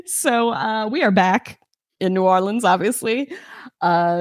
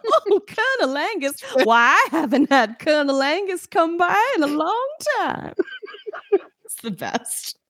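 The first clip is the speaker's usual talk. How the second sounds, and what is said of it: Put-on Southern American accent. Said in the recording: “I already have a southern accent.”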